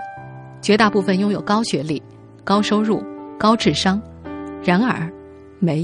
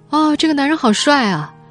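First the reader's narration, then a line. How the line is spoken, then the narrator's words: Casual exclamation. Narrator (Chinese): 随口感叹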